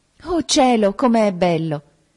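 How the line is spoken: Exclaimed. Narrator (Italian): esclamò

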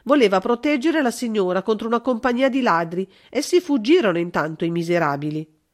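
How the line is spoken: Woman exclaiming. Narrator (Italian): esclamò una comare

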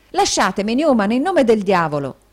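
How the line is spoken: Exclaimed. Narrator (Italian): esclamò Nicola

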